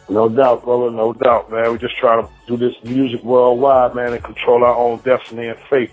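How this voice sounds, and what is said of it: New York accent. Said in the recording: “You definitely got that New York accent.”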